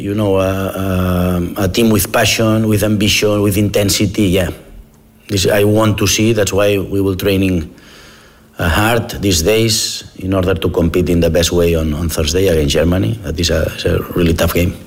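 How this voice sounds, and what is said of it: English with a Spanish accent. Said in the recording (Dutch): “Dat Spaanse. ... Engels met een Spaans accent.”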